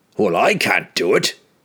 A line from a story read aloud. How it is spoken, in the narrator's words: Bruner snapped suddenly